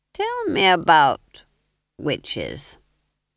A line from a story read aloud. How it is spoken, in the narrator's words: said the Duke, his voice dripping across the fool like treacle over a pudding